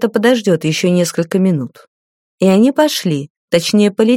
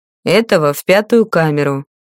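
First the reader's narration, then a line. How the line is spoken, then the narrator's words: Cold command. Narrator (Russian): холодно скомандовал магистр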